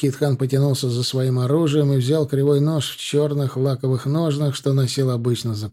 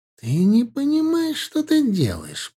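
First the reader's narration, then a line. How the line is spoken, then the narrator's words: Hiss. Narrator (Russian): прошипел Наби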